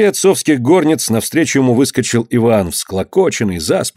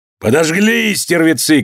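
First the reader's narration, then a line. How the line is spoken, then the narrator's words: Shouting. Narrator (Russian): кричал он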